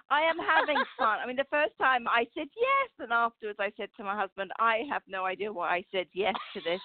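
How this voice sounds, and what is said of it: Sophisticated British accent. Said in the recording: “sophisticated, beautiful British accent”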